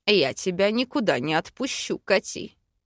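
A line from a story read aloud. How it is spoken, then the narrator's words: Menacing growl. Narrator (Russian): Грозно рыкнул эльф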